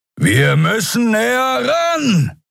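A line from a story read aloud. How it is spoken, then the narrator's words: Shouting over howling wind. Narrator (German): rief Kero über den heulenden Fahrtwind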